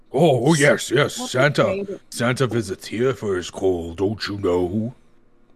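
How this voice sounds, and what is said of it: Badly done put-on accent. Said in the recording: “that terrible accent I just did for like 2 minutes straight”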